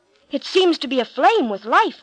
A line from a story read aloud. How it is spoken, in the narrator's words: cried Moses